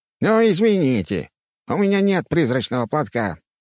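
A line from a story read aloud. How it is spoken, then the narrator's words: Ghost grumbling. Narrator (Russian): пробурчал призрак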